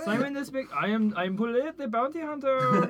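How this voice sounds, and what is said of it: Put-on French accent. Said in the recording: “This is my new French accent.”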